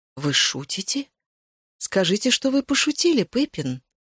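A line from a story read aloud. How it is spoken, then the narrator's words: Desperate pleading. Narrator (Russian): Взмолился я, чувствуя, что моя попытка оправдать себя перед потомками терпит крах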